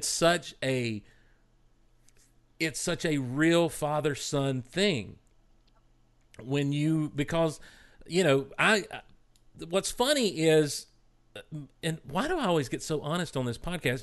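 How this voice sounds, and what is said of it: Choked up, emotional voice. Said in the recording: “I'm getting choked up now talking about it”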